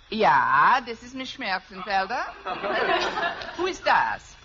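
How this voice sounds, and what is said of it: Put-on German accent. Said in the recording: “If I can do a decent German accent”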